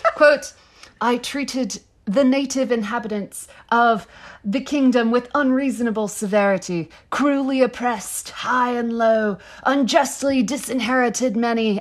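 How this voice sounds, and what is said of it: Mock medieval fantasy accent. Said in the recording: “in your best Game of Thrones accent ... This is going to be god-awful, but I will do my best.”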